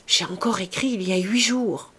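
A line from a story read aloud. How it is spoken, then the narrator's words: Murmured. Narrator (French): murmura-t-elle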